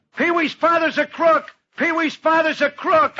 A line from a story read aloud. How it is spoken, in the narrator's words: the kids used to yell at him